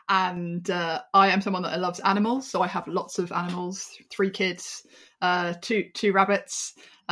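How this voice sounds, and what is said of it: British accent. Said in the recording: “I'm based in the UK, as you can probably tell by my accent.”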